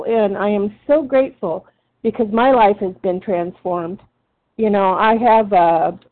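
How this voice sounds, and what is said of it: Emotional, choked-up voice. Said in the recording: “I'm getting choked up.”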